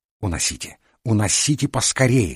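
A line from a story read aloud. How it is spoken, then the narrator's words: Urgent alarmed hiss. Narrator (Russian): зашипел, видя, как лицо старушки покрывается багровыми пятнами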